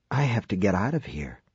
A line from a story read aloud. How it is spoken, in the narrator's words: he whispered